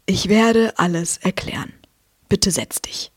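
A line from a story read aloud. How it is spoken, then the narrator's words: Plain. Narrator (German): antwortete Dumbledore nur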